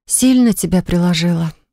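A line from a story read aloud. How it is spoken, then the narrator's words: Sigh. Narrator (Russian): вздохнула я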